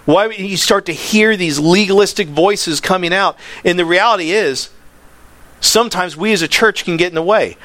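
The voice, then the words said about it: Yelling, excited preaching. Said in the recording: “I'm yelling, I don't mean to yell, I just get excited about this”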